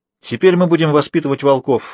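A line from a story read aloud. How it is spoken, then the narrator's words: Smiling exclamation. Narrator (Russian): с улыбкой воскликнула она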